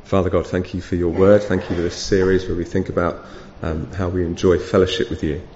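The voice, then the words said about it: Slightly hoarse, strained voice. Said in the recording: “I feel like I'm losing my voice a little bit”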